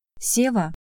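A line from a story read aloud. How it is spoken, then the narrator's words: Quiet firm interruption. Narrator (Russian): Тихо, но решительно прервала его Александра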